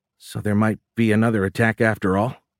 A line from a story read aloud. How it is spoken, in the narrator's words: Ron asked nervously